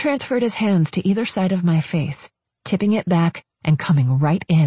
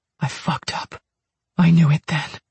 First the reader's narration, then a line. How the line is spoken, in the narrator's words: he whispered